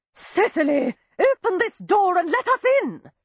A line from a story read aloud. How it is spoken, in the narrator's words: shrieked one of the sisters